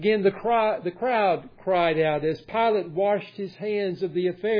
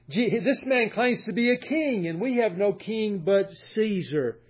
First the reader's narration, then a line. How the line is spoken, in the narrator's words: The chief priest cried out